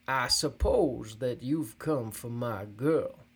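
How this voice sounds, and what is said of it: Rough, deep, mocking male voice. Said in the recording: “in a rough, deep voice. His tone is somewhat mocking.”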